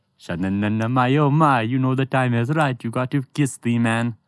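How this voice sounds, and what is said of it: Sings in put-on Jamaican accent. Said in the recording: “It's a better Jamaican accent than you.”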